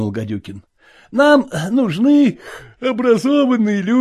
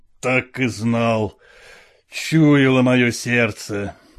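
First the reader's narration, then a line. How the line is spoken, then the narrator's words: Muttered. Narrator (Russian): пробормотал он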